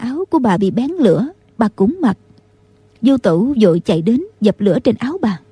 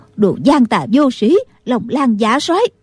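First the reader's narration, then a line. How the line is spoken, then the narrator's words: Loud angry shout. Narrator (Vietnamese): Định Vật sư thái bước lên trước lớn tiếng quát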